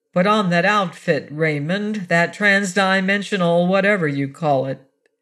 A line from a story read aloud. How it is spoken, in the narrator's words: In the same flat voice, she said